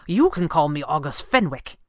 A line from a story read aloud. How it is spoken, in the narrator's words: he snapped